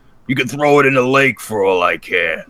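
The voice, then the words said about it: Imitates another person's voice. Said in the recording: “Actually, it sounds more like this. ... that impression was spot on, wasn't it?”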